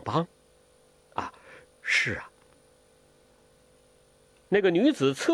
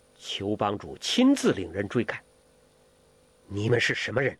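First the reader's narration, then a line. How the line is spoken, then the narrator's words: Stern. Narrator (Chinese): 声音很严厉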